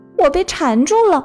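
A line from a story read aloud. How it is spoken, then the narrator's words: Anxious cry. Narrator (Chinese): 弗洛格着急的叫道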